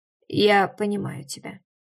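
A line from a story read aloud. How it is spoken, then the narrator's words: Muffled reply. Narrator (Russian): глухо отозвался Деймос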